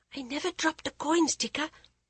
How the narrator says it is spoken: she whispered

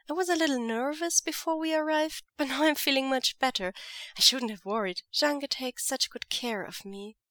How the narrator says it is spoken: he says sweetly

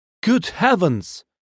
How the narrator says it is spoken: cried Mrs

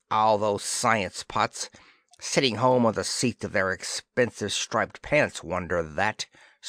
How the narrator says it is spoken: snarled Dispro

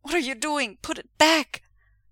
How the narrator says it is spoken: Wei Ying cries immediately and hoarsely

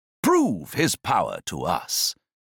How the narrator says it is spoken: Several voices exclaimed

